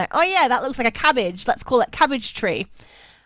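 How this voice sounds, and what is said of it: Put-on Australian accent. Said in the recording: “I gave the Europeans an Australian accent.”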